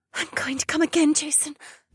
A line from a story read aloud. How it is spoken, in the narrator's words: Becca whispered